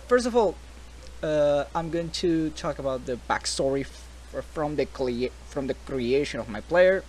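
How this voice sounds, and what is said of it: Slight non-native English accent. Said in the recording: “English is not my first language... the little accent that I have”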